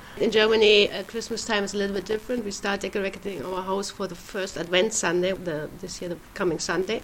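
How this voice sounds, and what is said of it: German accent. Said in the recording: “As you can hear, I'm German, my accent”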